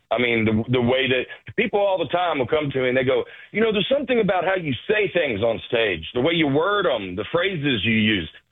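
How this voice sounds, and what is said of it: Southern American accent. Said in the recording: “I just happen to have a Southern accent”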